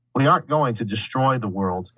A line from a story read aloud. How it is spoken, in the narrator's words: Emma said sharply